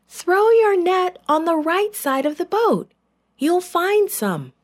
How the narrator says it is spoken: The man called out again

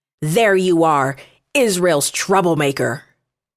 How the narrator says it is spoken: he shouted

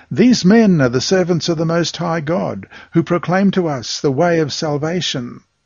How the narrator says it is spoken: This girl cried out, saying

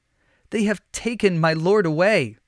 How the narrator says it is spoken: Mary sobbed

